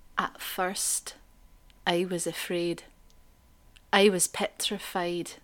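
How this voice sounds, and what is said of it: Scottish accent, like Peter Mullen. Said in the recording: “First line in a Scottish accent ... this is fantastic ... That was Peter Mullen.”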